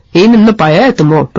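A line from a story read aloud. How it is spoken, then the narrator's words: Growled. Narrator (Russian): прорычал разбойник Хотцемплотц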